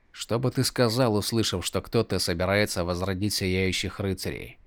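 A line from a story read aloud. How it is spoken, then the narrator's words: Quiet question. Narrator (Russian): Негромко спросил Каладин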